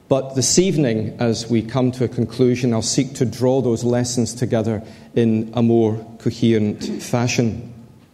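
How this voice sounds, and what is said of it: Scottish Glasgow accent. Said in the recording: “my educated, mellifluous Glasgow accent”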